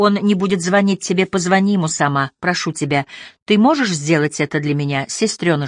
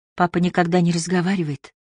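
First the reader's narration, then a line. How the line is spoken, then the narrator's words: Whisper. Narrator (Russian): прошептала она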